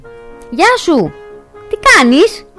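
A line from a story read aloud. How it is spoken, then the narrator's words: Shouted. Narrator (Greek): της φώναξε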